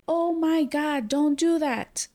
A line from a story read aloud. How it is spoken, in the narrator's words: Phoebe tells him no, and then she starts yelling